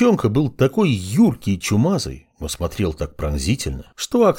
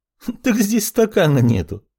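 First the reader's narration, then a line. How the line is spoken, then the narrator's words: Laughing. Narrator (Russian): рассмеялась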